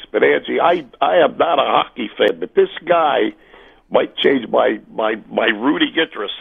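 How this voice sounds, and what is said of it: Rough, affected voice. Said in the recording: “pardon my voice, it's my allergies”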